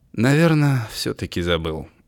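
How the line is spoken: Sighing. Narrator (Russian): вздохнул Августин

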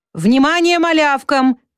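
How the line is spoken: Older schoolboy shouting. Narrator (Russian): крикнул старшеклассник Кабан

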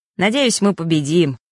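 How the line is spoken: Muttered grumble. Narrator (Russian): пробурчал новый знакомый

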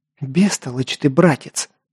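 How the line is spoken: Hissing. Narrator (Russian): прошипела

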